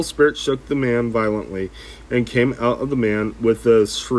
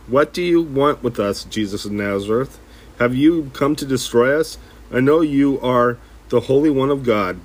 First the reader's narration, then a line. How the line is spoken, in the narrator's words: a man in their synagogue who was possessed by an evil spirit cried out